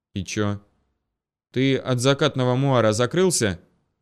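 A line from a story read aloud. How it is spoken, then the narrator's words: Through gritted teeth. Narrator (Russian): процедил Кузнецов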